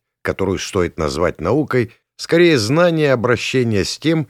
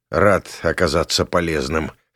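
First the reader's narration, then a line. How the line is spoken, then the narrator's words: Snorting. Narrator (Russian): хмыкнул я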